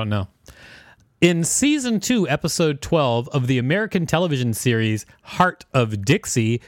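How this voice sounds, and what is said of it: Usual voice. Nothing is said of it.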